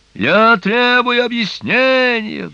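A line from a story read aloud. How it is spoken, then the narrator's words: Roaring over noise. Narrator (Russian): взревел мистер Уилберфлос сквозь шум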